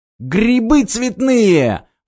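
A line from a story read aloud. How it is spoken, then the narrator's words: Exclaiming. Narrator (Russian): воскликнул он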